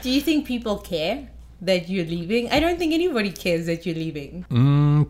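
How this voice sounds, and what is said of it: Speaks with a cute accent. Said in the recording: “You say it very like firmly but nicely and sweetly in your cute accent”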